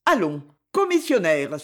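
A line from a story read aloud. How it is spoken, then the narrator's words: Exclaimed. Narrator (French): s'écria-t-il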